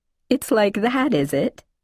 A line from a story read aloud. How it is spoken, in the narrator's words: She laughed